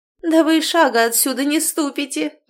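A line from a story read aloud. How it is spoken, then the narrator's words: Loud laughter, sister-in-law. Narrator (Russian): расхохоталась заловка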